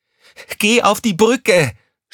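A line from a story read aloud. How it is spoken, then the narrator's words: Angry shout. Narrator (German): schrie Crescentia Rausch sie an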